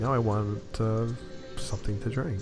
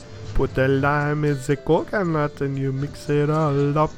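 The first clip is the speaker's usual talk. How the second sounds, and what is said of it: Put-on accent singing a line. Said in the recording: “do with the accent when you say it too”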